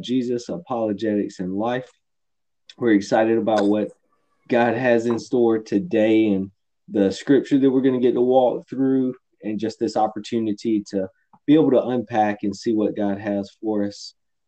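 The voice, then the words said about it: Strained, nearly lost voice. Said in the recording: “trying to keep from losing my voice ... from a whole lot of singing and worshiping, my voice is barely hanging on”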